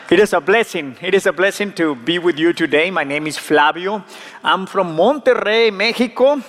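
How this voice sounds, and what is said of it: Strong Latino accent in English. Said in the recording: “my strong Latino accent”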